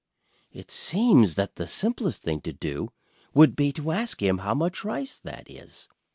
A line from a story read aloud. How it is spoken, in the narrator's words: the queen whispered to him